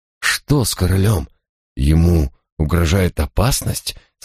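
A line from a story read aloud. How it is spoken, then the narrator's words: Trembling, frightened question. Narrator (Russian): спросил я дрожащим голосом, чувствуя, что сердце вот-вот выскочит из груди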